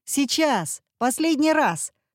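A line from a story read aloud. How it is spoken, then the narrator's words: Shouted. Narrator (Russian): крикнул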